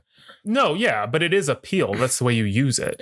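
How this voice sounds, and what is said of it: Southern accent. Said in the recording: “that's my southern accent. Peel. ... That's my southern accent.”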